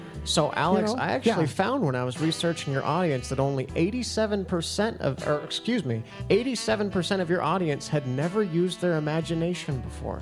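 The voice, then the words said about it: Speaks with a noticeable accent. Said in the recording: “I understand you have an accent.”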